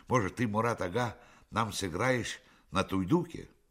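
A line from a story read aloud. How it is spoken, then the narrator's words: Embarrassed exclamation. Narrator (Russian): Смущенный неожиданной похвалой, Айдар воскликнул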